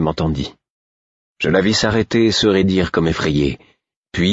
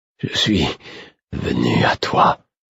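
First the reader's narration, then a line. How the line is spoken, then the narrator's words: Murmured. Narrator (French): murmurai-je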